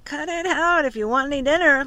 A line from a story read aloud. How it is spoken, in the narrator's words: laughed Mark